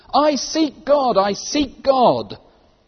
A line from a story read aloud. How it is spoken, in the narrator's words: that madman who lit a lantern in the bright morning hours, ran to the marketplace and cried incessantly